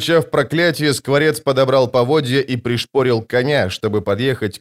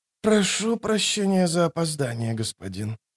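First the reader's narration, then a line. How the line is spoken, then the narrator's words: Hoarse, exhausted. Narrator (Russian): проговорила она хриплым от изнеможения голосом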